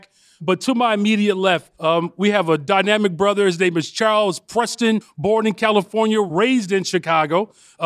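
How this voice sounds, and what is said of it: Shouting, loud projected voice. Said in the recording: “I'm shouting a little bit, so hopefully you can hear me in the back.”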